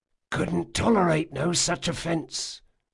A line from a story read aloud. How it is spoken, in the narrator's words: whispered one of the older sailors